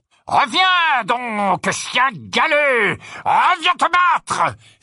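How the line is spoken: Muffled shout through helmet. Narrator (French): s'écria le chevalier d'une voix étouffée par le haume de son armure

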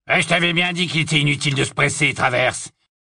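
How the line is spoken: Hoarse grumbling. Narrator (French): grommela une voix rauque

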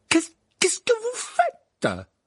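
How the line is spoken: Stammering. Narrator (French): balbutia le professeur McGonagall

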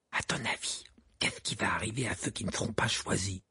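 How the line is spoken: Murmured. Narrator (French): murmura Ron à Harry

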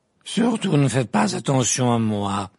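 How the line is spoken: Irritated protest. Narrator (French): protesta la grosse dame d'un ton irrité

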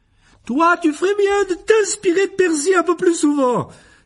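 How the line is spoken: Scolding exclamation, woman. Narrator (French): s'écria Madame Wesley

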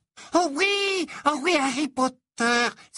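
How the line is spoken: Excited immediate exclamation. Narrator (French): s'exclama aussitôt Dobby, ses grands yeux brillants d'excitation

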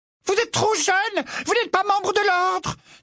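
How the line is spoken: Shrill, mimicking his mother. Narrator (French): dit Fred d'une voix aiguë qui imitait avec une ressemblance troublante celle de sa mère

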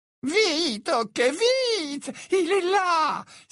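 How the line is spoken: Exclaimed. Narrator (French): s'écria Hepzibah

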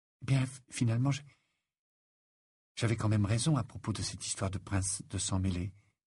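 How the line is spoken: Timid. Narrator (French): dit-elle timidement

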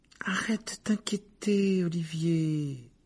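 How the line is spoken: Soothing tone. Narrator (French): dit Alicia d'un ton apaisant

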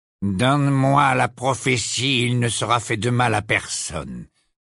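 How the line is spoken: Icy voice. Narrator (French): dit Malfoy d'une voix glaciale

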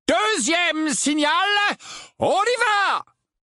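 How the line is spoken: Loud voice. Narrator (French): dit Lupin d'une voix forte

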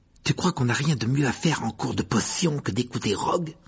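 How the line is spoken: Grumbled. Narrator (French): grommela Ron

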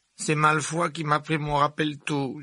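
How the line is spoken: Whimpering. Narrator (French): gémit Neville

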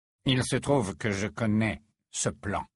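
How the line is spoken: Low voice. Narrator (French): déclara-t-il à voix basse

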